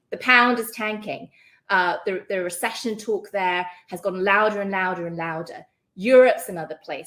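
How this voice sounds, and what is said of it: British accent. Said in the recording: “You can hear from my accent, I'm British.”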